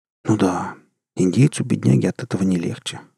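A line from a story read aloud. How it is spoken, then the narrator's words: Sighing. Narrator (Russian): вздохнул удалец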